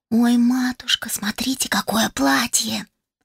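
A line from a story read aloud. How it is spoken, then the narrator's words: Excited whisper nearby. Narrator (Russian): Раздался совсем рядом восторженный шепот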